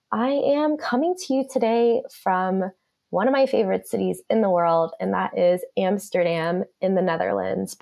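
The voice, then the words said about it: Sick, ill-sounding voice. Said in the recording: “as you might be able to hear in my voice, I'm a bit sick today, and I've actually been sick for 18 days”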